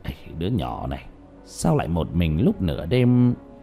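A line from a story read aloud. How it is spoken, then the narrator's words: Muttering. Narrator (Vietnamese): lẩm bẩm trong miệng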